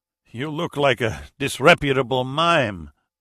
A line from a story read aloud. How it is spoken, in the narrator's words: Zavala said with a laugh